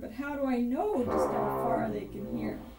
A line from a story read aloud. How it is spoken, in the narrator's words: said the bear with a sneer